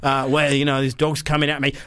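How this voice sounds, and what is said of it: Put-on Australian accent. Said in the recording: “it's fine to do the Australian accent”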